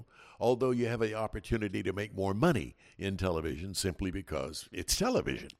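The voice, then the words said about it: Smooth, polished radio announcer voice. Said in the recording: “that beautiful radio voice”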